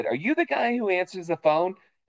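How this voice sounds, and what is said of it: Boston accent. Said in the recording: “my Boston accent sometimes comes out when I have been telling stories about drinking”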